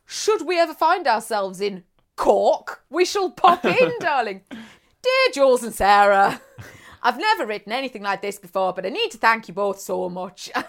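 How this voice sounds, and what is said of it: Put-on accent reading a letter. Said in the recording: “This accent is incredible.”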